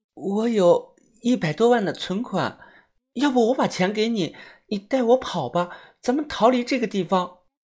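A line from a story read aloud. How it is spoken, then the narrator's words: Breathless whisper. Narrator (Chinese): 他喘着气，小声的说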